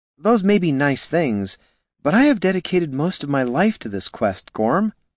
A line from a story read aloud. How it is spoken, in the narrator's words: sighed the priest